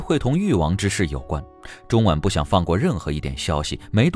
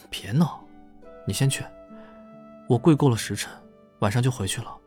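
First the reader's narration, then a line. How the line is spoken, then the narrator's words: Soft, with a smile. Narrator (Chinese): 中晚笑了下，轻声道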